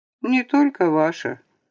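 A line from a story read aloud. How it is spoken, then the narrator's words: Grim statement. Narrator (Russian): мрачно констатировала Наталья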